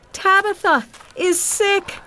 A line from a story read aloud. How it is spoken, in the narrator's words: she cried